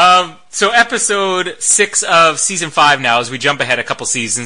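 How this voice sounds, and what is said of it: Usual voice. Nothing is said of it.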